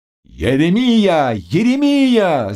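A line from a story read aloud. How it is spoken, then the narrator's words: Men shouting together. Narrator (Russian): закричали гусары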